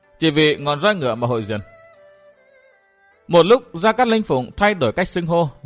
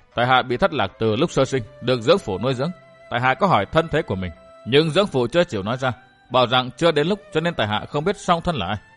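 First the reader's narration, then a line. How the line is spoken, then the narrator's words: Sighing. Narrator (Vietnamese): Thạch Kiếm Cửu thở dài nói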